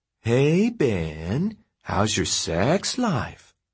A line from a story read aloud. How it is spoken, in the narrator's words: Michelle said in a teasy voice